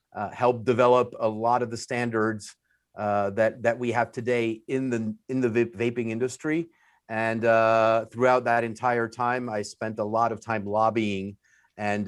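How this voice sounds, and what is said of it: French accent. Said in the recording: “the French accent because everyone knows I'm French”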